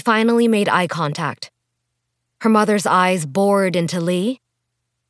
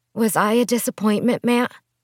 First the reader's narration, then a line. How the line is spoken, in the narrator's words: Li asked quietly, unsure what to do with the necklace